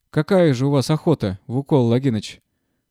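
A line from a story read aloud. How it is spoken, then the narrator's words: Displeased tone. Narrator (Russian): ответил Брагин недовольным тоном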